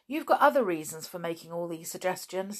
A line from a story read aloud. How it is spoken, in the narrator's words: said Julian scornfully